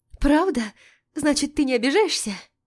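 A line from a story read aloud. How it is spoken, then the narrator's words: Relieved exhale. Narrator (Russian): Катя с облегчением выдохнула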